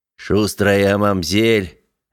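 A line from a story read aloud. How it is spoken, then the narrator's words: Sighing. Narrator (Russian): академик вздохнул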